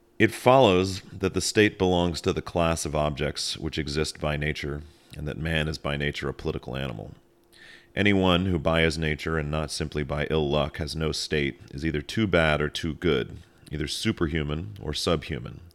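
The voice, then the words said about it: Announcer-style radio reading voice. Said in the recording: “radio voice”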